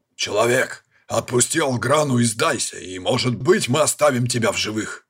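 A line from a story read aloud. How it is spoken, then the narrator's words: Barking shout. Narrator (Russian): рявкнул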